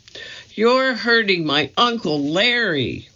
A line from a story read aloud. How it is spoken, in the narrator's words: the little girl started screaming